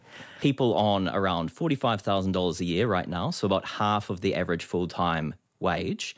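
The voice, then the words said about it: New Zealand accent. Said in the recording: “Apologies for my Kiwi accent.”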